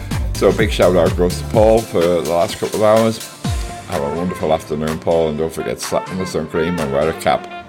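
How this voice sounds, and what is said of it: Sore-throated, rough voice. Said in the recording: “Excuse my voice. ... My throat is sore and I feel horrible.”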